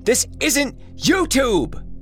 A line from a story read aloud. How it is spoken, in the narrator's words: Jesse shouted after him, but clearly too frightened to pursue